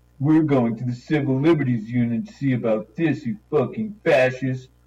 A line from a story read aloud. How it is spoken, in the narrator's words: Paul snorted after a long argument with the officials of the department